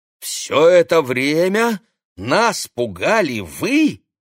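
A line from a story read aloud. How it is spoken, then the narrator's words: Exclaiming. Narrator (Russian): воскликнул Олег Станиславович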